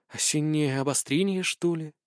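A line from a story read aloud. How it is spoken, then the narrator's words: Quiet whisper. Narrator (Russian): тихо прошептала Алиса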